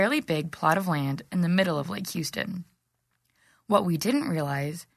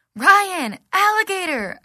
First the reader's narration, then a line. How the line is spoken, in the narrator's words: I screamed